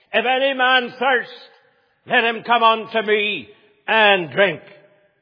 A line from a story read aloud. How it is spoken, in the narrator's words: Jesus shouted at the top of his voice